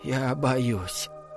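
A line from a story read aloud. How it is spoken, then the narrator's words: Barely audible whisper. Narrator (Russian): еле слышно прошептал Чарли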